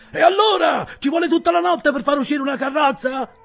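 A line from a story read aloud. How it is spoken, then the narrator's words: Shout. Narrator (Italian): gridò Mr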